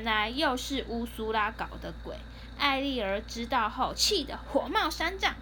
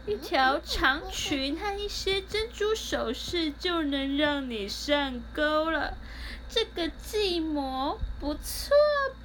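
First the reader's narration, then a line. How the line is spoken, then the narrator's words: Smug sinister laughter. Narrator (Chinese): 他们得意的奸笑说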